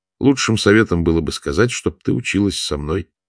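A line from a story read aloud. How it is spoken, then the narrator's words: Plain. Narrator (Russian): сказал дервиш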